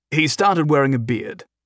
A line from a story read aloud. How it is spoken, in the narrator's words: Humphrey said